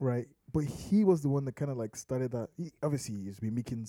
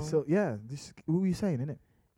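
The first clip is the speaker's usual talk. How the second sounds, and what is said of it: Put-on British accent. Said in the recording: “I'm speaking British ... that's village British English now ... I just sounded like someone from Peckham”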